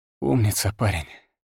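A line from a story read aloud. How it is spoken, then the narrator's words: Exhaled. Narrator (Russian): Выдохнул я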